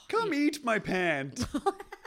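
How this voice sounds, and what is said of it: Homer Simpson impression. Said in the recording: “Here's my Homer Simpson again.”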